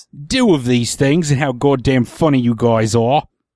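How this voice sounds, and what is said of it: Put-on English accent, Michael Caine-like. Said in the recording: “Say that in an English accent ... That was a little more Michael Caine”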